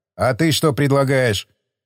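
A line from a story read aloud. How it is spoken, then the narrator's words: Angry. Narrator (Russian): Зло проговорил майор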